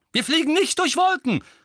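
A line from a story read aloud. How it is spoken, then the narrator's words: Angry shout. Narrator (German): rief Tonks erbost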